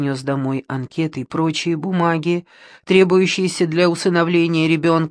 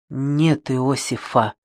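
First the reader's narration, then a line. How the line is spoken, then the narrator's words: Humble whisper. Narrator (Russian): прошептал смиренным тоном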